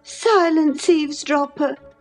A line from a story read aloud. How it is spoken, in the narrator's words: cried Catherine